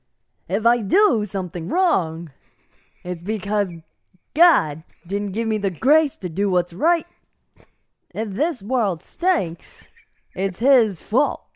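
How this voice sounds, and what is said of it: Christopher Walken impression. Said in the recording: “her absolutely flawless Christopher Walken impression ... her flawless impression.”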